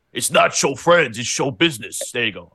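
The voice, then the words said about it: Poor imitation of another person's voice. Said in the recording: “that's my impression. ... That's a horrible impression.”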